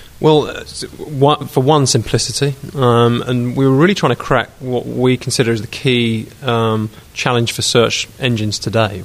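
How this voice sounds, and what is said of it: British accent. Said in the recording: “the British accent.”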